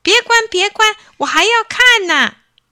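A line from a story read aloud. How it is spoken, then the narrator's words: Repeated loud shouting. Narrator (Chinese): 张谷川连声高喊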